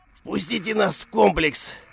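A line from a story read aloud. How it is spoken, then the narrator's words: Guard shouting. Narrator (Russian): выкрикнул охранник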